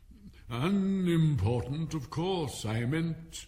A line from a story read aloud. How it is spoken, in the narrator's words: hastily said